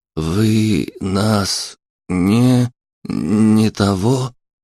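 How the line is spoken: Old man struggling to speak. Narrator (Russian): Старик попытался выдавить из себя осмысленную фразу, но не преуспел в этом

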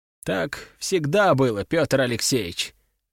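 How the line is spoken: Sighing. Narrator (Russian): вздохнул он

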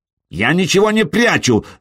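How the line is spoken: Shouting. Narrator (Russian): закричал Траен

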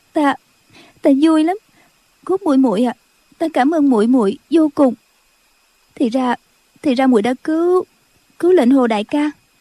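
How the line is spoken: Sobbing. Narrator (Vietnamese): Cô khóc thút thít nói

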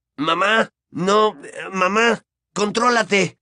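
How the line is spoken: Stammered. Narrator (Spanish): balbuceó

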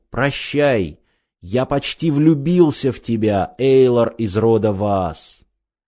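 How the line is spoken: Shout. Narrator (Russian): обернулся и крикнул

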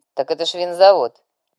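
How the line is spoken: Snide remark after pause. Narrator (Russian): Тыц помолчал и ехидно добавил

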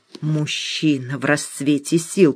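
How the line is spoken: Hiss. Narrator (Russian): прошипела Света

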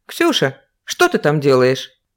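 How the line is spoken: Stern question. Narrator (Russian): строго спросила Карина

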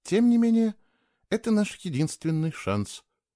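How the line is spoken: Calm and certain. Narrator (Russian): спокойно сказала Кейла, как будто для нее это уже решенное дело

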